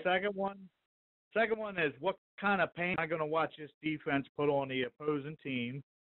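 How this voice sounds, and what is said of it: Slight Alabama accent. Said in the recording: “I heard a little touch of Alabama in that accent.”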